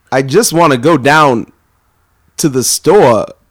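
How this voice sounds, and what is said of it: Christopher Walken impression, halting pauses. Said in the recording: “Let's hear Christopher Walken then ... the trick is you just have to pause a lot and make sentences not work right”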